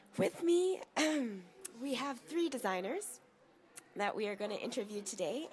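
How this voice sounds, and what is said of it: Hoarse, worn-out voice. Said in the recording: “my voice is already gone because of the crazy week it's been”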